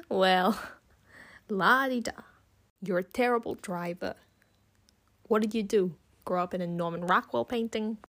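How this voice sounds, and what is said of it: Poor imitation of a film character. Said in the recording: “that impression was terrible. I probably sound more like a character off The Sopranos than Alvy.”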